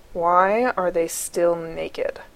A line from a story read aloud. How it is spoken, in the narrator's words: Gibbs growls